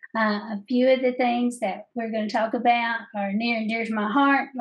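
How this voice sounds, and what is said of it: Southern American accent. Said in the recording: “my favorite Southern accent besides Dolly Parton”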